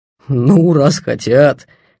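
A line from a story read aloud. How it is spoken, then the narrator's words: Mocking. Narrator (Russian): насмешливо сказал он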